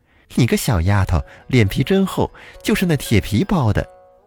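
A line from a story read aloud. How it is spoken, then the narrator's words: Laughing loudly. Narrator (Chinese): 少妇大笑着说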